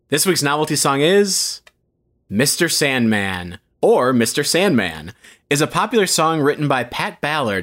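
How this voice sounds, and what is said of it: Announcer voice. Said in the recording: “put that announcer voice on and give this a read”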